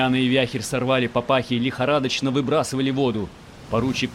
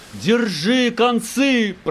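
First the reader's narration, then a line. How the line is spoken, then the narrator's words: Piercing howl from stern. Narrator (Russian): пронзительно взвыла с кормы Марютка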